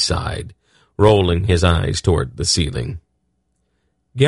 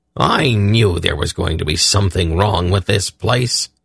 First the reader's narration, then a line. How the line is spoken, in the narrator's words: the dwarf growled to Belgarath